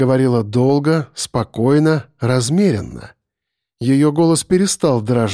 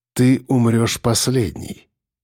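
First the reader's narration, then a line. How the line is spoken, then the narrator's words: Calm explanation. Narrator (Russian): спокойно пояснил он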